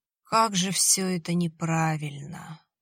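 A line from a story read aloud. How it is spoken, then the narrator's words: Groaning. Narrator (Russian): застонал Виталий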